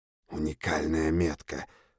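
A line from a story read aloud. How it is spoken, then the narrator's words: Whisper. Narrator (Russian): прошептал он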